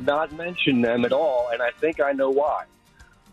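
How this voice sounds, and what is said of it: Usual voice. Nothing is said of it.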